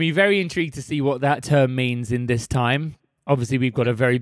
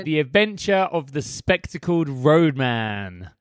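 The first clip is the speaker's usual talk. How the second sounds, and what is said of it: Exaggerated posh pronunciation. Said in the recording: “you could not have said roadman in any posher way.”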